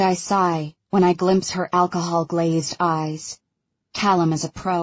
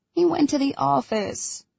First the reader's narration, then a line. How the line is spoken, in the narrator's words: she whines